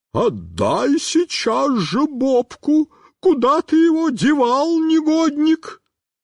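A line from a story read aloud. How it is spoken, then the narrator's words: Inhuman shrieking woman. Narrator (Russian): Тетенька стала кричать нечеловеческим голосом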